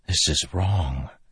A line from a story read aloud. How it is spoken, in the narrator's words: Kaladin whispered to Syl